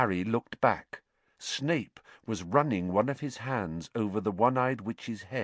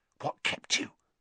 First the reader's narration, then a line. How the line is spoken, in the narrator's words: Ron hissed